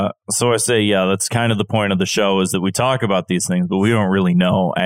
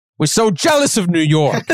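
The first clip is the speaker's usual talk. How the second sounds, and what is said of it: Put-on New York accent. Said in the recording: “I gave an LA person a New York accent.”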